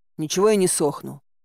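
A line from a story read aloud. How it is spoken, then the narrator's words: Grumbling. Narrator (Russian): буркнула я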